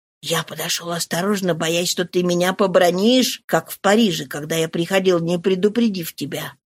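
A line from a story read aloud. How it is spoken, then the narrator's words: Whisper. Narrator (Russian): прошептал он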